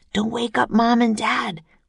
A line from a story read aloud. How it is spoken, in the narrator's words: whispered Jack